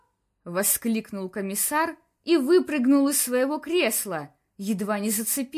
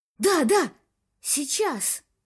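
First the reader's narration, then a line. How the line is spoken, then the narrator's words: Catching breath, whispering. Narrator (Russian): перевел дыхание Мур и прошептал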